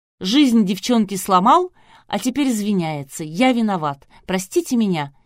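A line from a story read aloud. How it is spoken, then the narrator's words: Mocking female mimicry. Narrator (Russian): издевательским тоном передразнила ведущая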